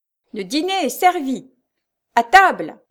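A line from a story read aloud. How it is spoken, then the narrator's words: Commanding tone. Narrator (French): disait la maîtresse du rendez-vous des boulangers d'un ton de commandement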